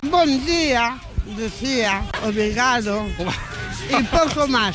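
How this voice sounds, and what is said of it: Slight put-on Portuguese accent. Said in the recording (Spanish): “con acento un poco portugués”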